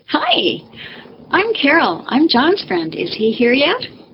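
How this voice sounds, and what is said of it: Perky naive young Minnesota girl voice. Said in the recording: “in my perky 19-year-old naive Minnesota girl voice”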